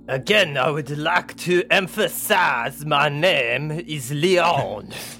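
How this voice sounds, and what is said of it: Put-on French accent. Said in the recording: “Another French accent.”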